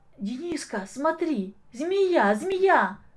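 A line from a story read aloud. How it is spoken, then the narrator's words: Sudden frightened shout. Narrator (Russian): закричал вдруг Коля испуганно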